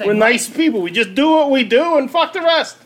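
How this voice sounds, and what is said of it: Put-on New York accent. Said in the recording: “it's always fun to get out the old New York accent ... Do the rest of the interview like we're from New York.”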